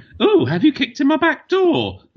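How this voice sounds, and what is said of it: Overplayed pantomime dame voice. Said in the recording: “pantomime dame ... Overplayed for comedic effect ... my best pantomime dame impression”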